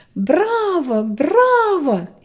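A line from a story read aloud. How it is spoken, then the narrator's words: Loud crowd shouting. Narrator (Russian): все громко закричали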